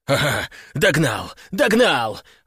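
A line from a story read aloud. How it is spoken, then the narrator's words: Joyful shout, abruptly cut off. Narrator (Russian): радостно крикнул он, но тут же осекся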